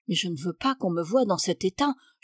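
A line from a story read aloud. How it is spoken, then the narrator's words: Whispering. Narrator (French): chuchotait une autre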